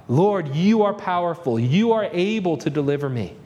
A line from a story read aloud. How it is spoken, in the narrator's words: plead with God